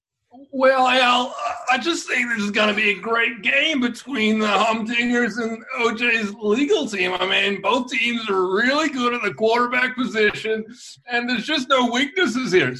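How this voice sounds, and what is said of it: Strained sportscaster impression. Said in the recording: “my Chris Collinsworth impression ... he sounded constipated”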